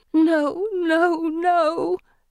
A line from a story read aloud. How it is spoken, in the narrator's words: Felicity whimpers